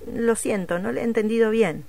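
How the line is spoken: Plain. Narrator (Spanish): dijo el médico

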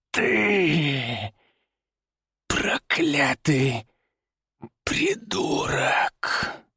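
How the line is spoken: Strained wheezing. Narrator (Russian): Прохрипел он, с трудом пытаясь встать

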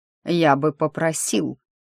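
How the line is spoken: Icy cold voice. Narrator (Russian): заледеневшим голосом произнес Фремантль

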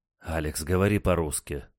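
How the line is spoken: Sighing. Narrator (Russian): вздохнул Николай

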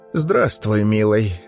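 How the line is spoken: Muffled old woman through glass. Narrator (Russian): глухо сквозь стекло произнесла старуха

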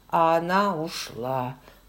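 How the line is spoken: Gloomy. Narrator (Russian): мрачно закончил

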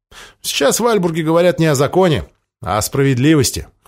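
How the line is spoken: Scoffing snort. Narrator (Russian): хмыкнул Томми

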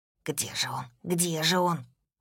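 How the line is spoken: Whisper from behind. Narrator (Russian): за спиной шепот

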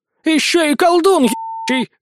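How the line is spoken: Old woman yelling. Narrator (Russian): заорала бабка

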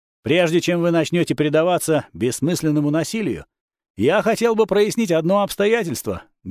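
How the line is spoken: Loud. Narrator (Russian): громко сказал

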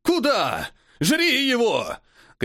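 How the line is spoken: Shouting. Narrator (Russian): кричал колдун

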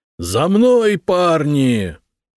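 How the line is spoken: Yelling. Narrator (Russian): заорал Витерих

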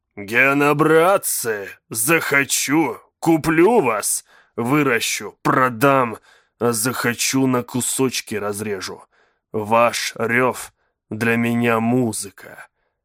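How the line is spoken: Growled. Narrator (Russian): прорычал механист

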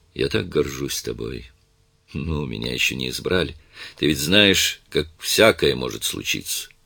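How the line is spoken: Tender. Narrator (Russian): нежно сказала

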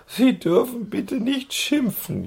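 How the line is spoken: Female wailing. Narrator (German): jammerte sie

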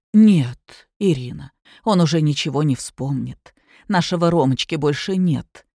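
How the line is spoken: Quiet, sorrowful. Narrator (Russian): тихо проговорила Анна Николаевна

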